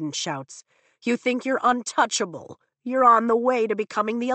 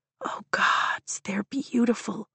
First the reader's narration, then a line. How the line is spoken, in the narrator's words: Rhiannon whispers at my side